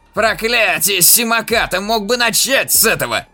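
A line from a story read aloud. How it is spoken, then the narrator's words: Barked. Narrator (Russian): рявкнул Гидрак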